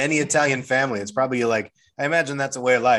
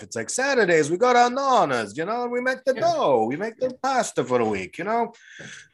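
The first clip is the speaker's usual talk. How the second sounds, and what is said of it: Put-on Italian accent. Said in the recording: “I'm gonna get canceled for doing an, Italian accent”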